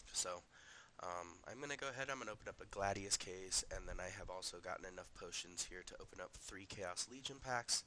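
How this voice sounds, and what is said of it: Unwell, affected-sounding voice. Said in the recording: “Sorry about my voice, I'm dealing with some seasonal allergies right now.”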